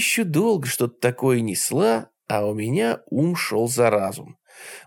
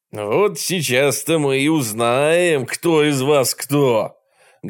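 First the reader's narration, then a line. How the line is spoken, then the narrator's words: Loud announcement. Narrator (Russian): громко объявил хозяин дома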